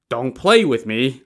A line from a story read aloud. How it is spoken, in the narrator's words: Li Kui chuckled